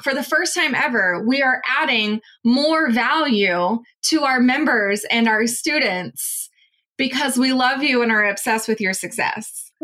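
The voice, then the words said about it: Sarcastic delivery. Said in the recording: “this is me being sarcastic.”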